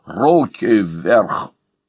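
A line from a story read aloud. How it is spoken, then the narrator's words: Rough, frightening hoarse voice. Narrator (Russian): разбойник прохрипел грубым страшным голосом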